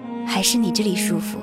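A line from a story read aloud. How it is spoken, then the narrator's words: Weary sigh. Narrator (Chinese): 面容憔悴了些许，叹口气道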